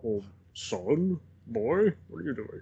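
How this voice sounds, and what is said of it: Sean Connery impression. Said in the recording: “do a Jimmy Stewart impression, you can also do a Sean Connery impression.”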